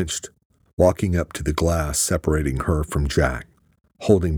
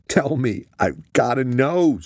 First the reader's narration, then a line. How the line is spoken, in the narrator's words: screamed